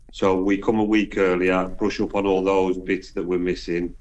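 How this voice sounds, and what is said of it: Black Country Midlands English accent. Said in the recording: “your accent, because she too is from the Midlands ... So I am Black Country”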